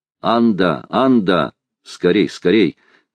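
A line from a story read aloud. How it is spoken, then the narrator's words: Thunderous shout. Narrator (Russian): крикнул громовым голосом Талькав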